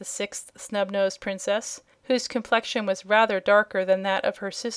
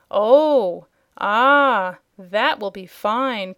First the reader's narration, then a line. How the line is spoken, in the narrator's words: cried all the other five